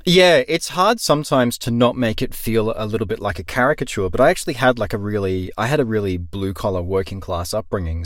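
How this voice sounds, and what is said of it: Neutral cultivated Australian accent. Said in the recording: “my cultivated Australian accent being neutral rather than having US leanings”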